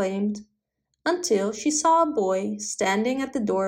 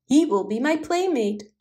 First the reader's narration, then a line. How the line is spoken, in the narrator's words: cried the princess